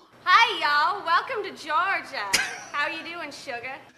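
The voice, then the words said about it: Bad put-on Southern accent. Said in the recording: “Is that the worst Southern accent you've heard in your life? Because it's up there.”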